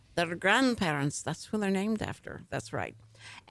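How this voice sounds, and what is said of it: Put-on Irish accent. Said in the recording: “I have to say grandparents in an Irish accent”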